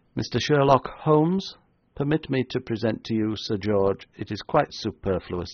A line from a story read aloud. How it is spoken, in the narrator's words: said the newcomer, in an even voice of exasperating tenor